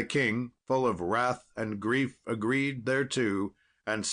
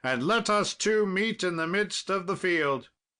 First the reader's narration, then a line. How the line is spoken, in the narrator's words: said King Arthur right fiercely